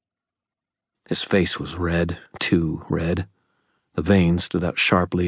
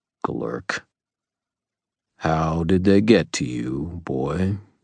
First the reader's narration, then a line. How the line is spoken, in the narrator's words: he asked, his voice still unnaturally calm